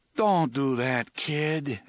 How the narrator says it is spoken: Eddie said feebly

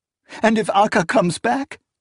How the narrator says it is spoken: She sobbed

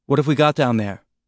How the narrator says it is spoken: Naomi asked, her voice tense in his ear

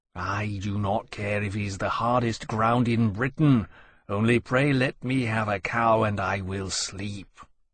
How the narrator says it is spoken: Temeraire said wearily

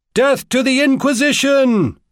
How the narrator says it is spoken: bellowed

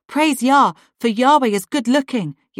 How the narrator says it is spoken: exclaims

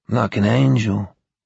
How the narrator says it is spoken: her father said in a wistful tone

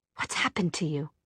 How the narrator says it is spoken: She said under her breath

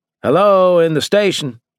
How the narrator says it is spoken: I called, trying not to yell so loud

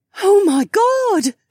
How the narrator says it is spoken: Kat gasped

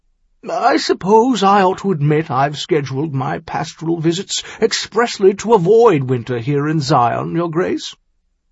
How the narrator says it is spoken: he acknowledged with a chuckle of his own

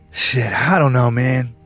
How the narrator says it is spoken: he said wearily

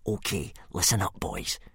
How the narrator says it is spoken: he whispered in a menacing fashion

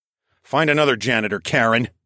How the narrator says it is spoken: I snapped

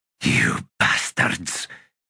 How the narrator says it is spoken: he hissed under his breath

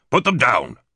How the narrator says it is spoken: Jason Whitehurst said sharply

